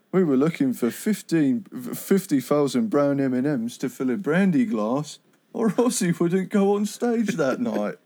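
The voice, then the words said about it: Del Preston impression. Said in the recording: “you do your Del Preston impression”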